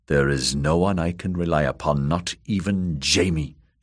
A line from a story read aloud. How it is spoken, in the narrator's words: she realized grimly